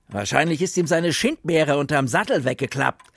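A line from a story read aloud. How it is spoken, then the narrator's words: Mocking. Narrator (German): höhnte Bump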